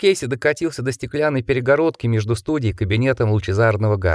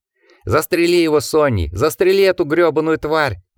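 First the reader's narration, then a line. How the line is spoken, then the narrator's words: Yelling. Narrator (Russian): вопил Уорвик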